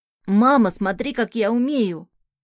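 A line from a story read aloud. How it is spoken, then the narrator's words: Excited child's exclamation. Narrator (Russian): воскликнул ребенок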